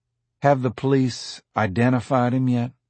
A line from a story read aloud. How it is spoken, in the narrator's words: Hallis asked in the idle tone of a prisoner who is just making conversation in order to stay out of his cell a little longer